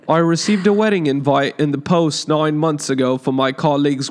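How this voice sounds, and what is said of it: Weak attempt at British accent. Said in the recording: “read it in the true British fashion? ... you know I can't. ... talk in the accent ... That was me doing it.”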